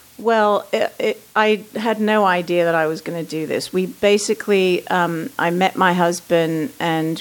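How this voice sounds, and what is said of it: British-influenced accent. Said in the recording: “So the accent, you lived in Britain for a while.”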